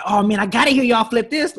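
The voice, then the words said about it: Imitates another person's voice. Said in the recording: “your like Tyler impersonation”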